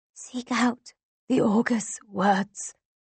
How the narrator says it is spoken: she whispers

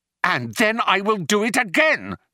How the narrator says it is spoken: yelled Arthur

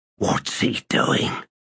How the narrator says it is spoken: He whispered

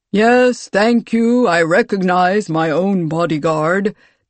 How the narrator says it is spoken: the Hezra Ka said, his voice a booming baritone

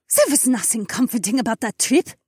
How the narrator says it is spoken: Hilda spat

